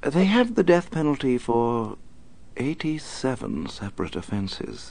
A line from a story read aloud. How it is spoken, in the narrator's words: Alfred said quietly